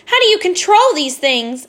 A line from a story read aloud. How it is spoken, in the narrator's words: Annabeth shouted